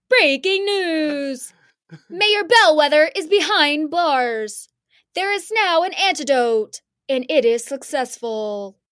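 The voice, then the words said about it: News anchor voice. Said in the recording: “do you like my news voice?”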